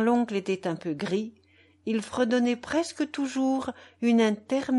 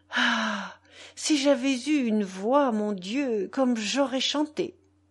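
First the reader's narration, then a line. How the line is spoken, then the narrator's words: Sighing grandmother. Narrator (French): Grand-mère soupirait et disait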